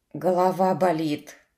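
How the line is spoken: Sighing. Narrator (Russian): вздохнул архимаг

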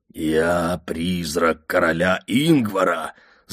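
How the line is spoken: Sepulchral voice. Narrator (Russian): загробным голосом сообщил я

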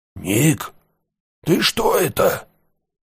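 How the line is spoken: Distant alarmed voice. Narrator (Russian): Как бы издалека до него дошел встревоженный голос Шептуна

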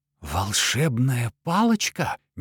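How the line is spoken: Breathless disbelief. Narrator (Russian): не веря себе, выдохнул Лютик

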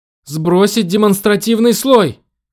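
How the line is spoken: Shouted. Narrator (Russian): крикнула она

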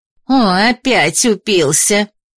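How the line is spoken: Woman grumbling. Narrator (Russian): заворчала одна из женщин

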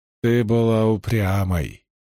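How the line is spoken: Plain. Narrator (Russian): сказал он

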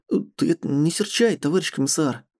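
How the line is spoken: Mumbled apologetically. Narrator (Russian): пробормотал он

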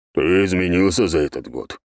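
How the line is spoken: Deep bass, gnome. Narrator (Russian): пробасил гном

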